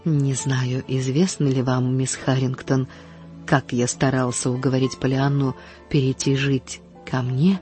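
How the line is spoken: Very gentle, voice regained. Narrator (Russian): как только он сумел овладеть своим голосом, спросить очень мягко

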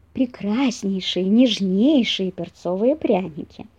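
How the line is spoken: Gentle singsong. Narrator (Russian): Ласково пропел зайка-пекарь

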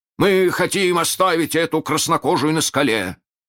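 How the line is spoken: Shouting. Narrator (Russian): крикнул Неряха

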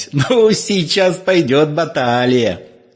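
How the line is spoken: Laughing. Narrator (Russian): Химка, смеясь

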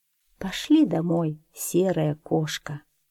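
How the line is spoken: Tired, smiling. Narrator (Russian): она устало улыбнулась и сказала

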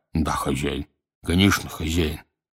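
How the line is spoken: Muffled mumbling. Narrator (Russian): глухо бормоча

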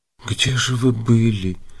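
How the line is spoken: Frightened whisper. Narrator (Russian): спросила она испуганным шепотом

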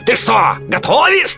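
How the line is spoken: Yelled. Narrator (Russian): заорал он

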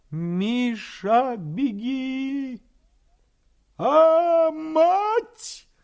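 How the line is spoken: Terrible howl, old man. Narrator (Russian): Страшно взвыл дед

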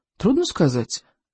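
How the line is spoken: Thoughtful. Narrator (Russian): задумчиво ответил Икинг

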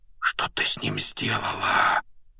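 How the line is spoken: Whisper. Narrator (Russian): прошептал Гарри

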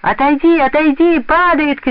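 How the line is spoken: Children shouting. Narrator (Russian): кричали ребята

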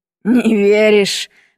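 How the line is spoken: Laughing. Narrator (Russian): рассмеялся Абрек

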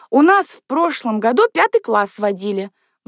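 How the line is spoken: Exclaiming. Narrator (Russian): воскликнула Люся

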